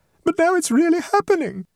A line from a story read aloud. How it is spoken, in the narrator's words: exclaimed the mother